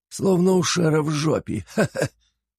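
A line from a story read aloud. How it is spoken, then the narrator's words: Creaky laughter. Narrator (Russian): скрипуче рассмеялся Флапий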